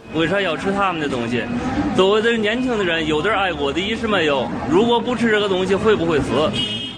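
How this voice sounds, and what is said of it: Man with Hebei accent. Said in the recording (Chinese): “一名河北口音的男子”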